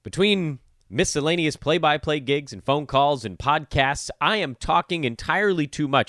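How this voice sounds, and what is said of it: Tired, fatigued voice. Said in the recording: “My voice fatigue be damned. ... My voice is tired, man.”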